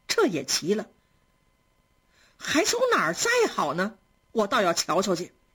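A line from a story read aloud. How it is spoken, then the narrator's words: Surprised laughing. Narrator (Chinese): 袭人听了觉得诧异，又笑着说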